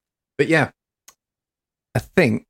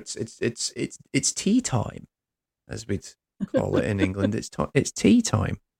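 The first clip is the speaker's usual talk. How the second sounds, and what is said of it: Put-on English accent. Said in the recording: “That was a very good English accent. ... Oh, it was terrible. It was terrible.”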